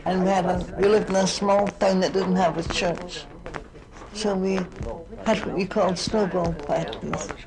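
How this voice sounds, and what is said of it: Scottish accent. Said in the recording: “I come from Scotland, as you'll know from my accent.”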